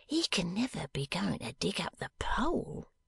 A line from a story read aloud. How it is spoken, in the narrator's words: whispered Venus